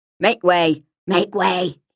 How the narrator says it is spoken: muttered

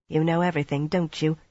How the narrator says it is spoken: Mirella muttered unsteadily

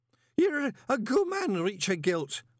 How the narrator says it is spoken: Horsefry hiccuped, waving the brandy glass unsteadily now that it was almost empty again

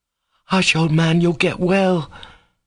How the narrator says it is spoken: Krasotkin cried suddenly in a voice that sounded angry

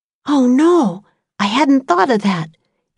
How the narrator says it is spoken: Annie whispered

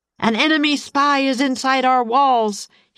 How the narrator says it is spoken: he roared

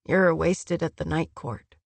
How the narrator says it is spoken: Eris murmured

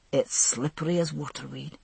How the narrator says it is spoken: he said softly

